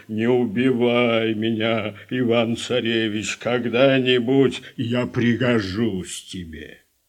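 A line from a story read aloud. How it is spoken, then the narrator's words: Bear in human voice. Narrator (Russian): медведь вдруг и говорит ему человеческим голосом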